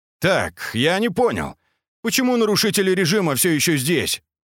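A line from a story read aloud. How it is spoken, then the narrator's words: Barked. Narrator (Russian): Антонов рявкнул на ближайшего сержанта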